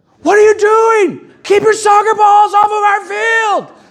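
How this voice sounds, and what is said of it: Screaming angrily. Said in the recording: “I'm screaming ... yelling at other coaches”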